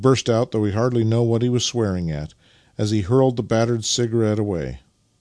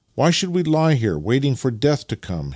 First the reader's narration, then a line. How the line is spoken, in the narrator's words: he exclaimed as a new idea suddenly struck him